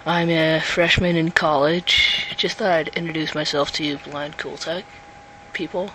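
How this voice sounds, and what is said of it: Unusually deep voice. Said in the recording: “my deep voice because I've got a cold”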